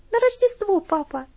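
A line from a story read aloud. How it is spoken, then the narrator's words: Cheerful reply. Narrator (Russian): весело ответила она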